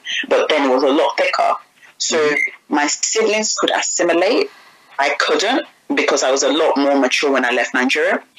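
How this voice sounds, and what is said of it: Slight foreign accent. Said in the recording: “my accent hasn't really ever gone. So I still think I have a bit of an accent”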